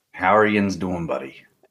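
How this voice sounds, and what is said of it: Thick Pennsylvania Yinzer accent. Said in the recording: “thick Pennsylvania accent ... You're mixing a few. You've got some like Amish country ... the Pittsburghese ... the Yinzer”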